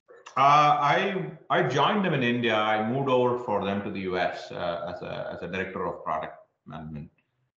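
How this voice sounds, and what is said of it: Indian-American English accent. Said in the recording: “your accent is American Indian kind of thing.”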